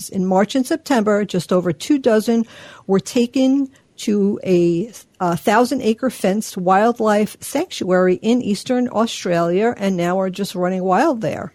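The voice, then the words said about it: New York accent. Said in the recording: “I love the way you say Australia. ... My New York accent.”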